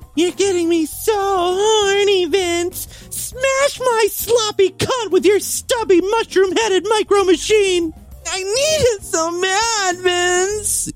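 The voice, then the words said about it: Man putting on a female voice. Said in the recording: “I should try doing a female voice. ... I'm better at seducing a man when I'm playing a woman anyway.”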